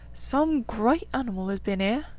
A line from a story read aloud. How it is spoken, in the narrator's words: he murmured slowly and thoughtfully